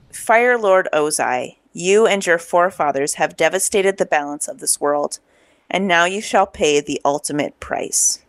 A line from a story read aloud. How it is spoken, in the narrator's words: in the layered avatar voice, we finally hear Aang, and he says